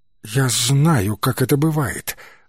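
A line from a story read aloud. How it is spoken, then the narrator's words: Slow, dazed. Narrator (Russian): заторможенно вымолвила Пейдж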